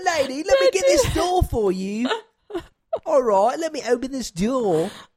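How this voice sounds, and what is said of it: Attempted Cockney accent. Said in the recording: “All I can think of is like a Cockney accent ... That sounds so matter of fact. That doesn't sound like a servant at all.”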